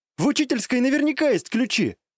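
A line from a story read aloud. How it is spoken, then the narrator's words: Exclaiming. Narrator (Russian): воскликнула Рэй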